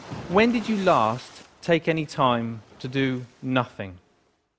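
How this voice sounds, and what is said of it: British accent. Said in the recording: “his groovy British accent”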